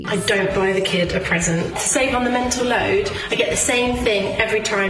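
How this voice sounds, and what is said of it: British accent. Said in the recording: “her British accent”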